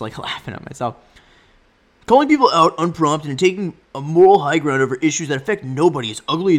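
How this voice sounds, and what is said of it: Usual voice. Nothing is said of it.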